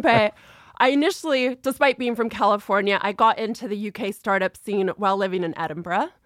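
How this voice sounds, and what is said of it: American accent. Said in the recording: “You haven't lost a cent of the accent.”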